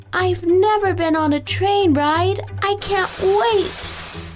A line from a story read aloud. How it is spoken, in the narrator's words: Madison Moy exclaimed